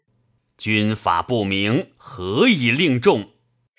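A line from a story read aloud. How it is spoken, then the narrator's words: Angry. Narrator (Chinese): 会怒曰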